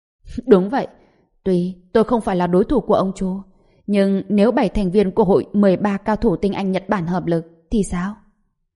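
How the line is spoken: Laughing loudly, then speaking. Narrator (Vietnamese): Yamashita Kakura cười to hai cái rồi nói

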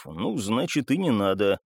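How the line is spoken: Sighing grumble. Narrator (Russian): Копиевский вздохнул ... буркнув

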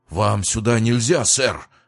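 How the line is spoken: Agitated young man. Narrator (Russian): взволнованно произнес молодой парень

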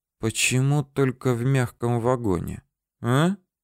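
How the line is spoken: Whisper. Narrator (Russian): прошептал

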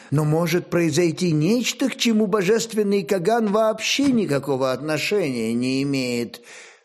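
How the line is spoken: Quiet, ingratiating priestly voice. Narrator (Russian): Все тем же негромким и вкрадчивым голосом проговорил первосвященник

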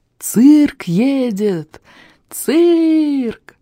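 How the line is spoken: Joyful shrill shout from outside. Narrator (Russian): радостно и пронзительно закричал снаружи Тони Пискля

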